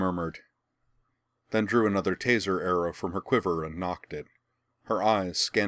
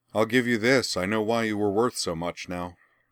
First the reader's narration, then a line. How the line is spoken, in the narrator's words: Vandy said